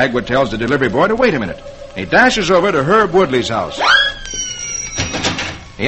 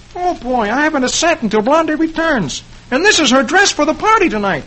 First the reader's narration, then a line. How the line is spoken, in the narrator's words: Dagwood exclaims